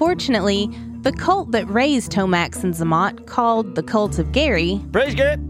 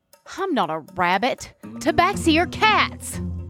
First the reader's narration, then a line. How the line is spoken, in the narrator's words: snaps Felina